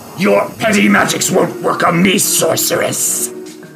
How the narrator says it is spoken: snarls and says

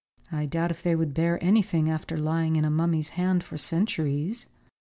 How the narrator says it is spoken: replied Forsyth gravely

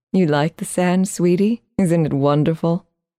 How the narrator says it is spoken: she asked

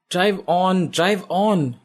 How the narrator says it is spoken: Isha shouts at her driver

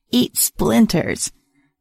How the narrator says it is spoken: A raspy, crackly voice called out from behind me

